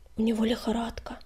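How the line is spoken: Dejected whisper. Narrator (Russian): понурившись, прошептал Огнегриф

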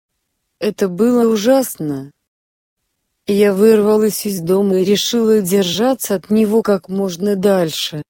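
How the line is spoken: Plain. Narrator (Russian): сказала я

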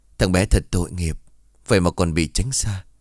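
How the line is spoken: Sighing, old man. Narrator (Vietnamese): Ông Trung thở dài

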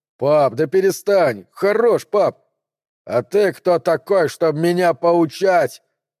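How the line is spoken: Growled. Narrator (Russian): рыкнул Гуннар

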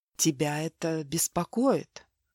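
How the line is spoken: Magnetic whisper. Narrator (Russian): магнетическим шепотом спросил Марк

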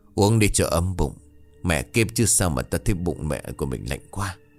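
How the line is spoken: Trembling, urging. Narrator (Vietnamese): run rẩy

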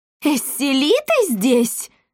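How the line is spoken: Yell. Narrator (Russian): завопил губернатор Гольф

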